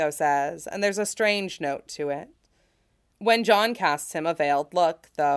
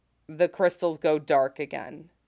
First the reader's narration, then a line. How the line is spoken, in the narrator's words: John says grimly